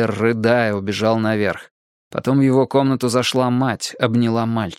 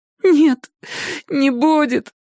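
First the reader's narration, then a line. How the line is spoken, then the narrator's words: Sobbing. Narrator (Russian): Его тело сотрясалось от рыданий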